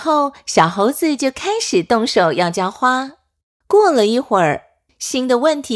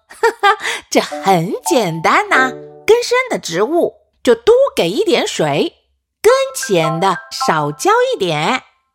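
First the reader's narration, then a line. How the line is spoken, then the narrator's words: Laughing father. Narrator (Chinese): 猴爸爸笑着说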